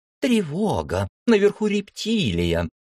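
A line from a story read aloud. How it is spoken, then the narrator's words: Mocking imitation. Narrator (Russian): передразнила Марика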